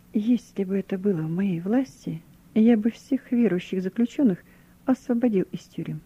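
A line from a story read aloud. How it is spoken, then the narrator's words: Quiet. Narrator (Russian): тихо сказал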